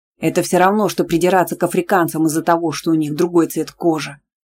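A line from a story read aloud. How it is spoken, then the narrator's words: Barked. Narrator (Russian): рявкнул Исаев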